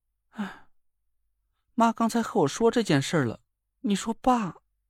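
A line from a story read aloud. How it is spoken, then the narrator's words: Sighing. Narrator (Chinese): 他叹了口气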